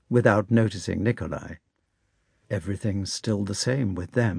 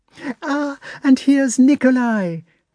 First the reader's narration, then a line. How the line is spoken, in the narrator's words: cried Natasha, running up to him